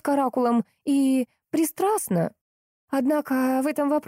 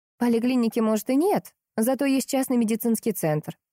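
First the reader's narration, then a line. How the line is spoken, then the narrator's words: Plain. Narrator (Russian): сказала Марина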